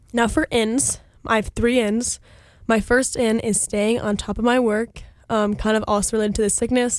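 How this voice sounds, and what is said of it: Congested, sick-sounding voice. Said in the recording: “maybe you can hear it in my voice, but I was really sick last week, and I'm really tired of sounding like this. So my second out is congestion.”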